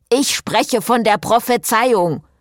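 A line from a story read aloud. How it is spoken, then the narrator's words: Snapped. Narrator (German): schnauzte Friederike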